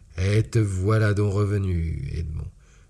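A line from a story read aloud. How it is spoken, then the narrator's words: Strong southern accent, broad smile. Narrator (French): dit-il avec un accent marseillais des plus prononcés et avec un large sourire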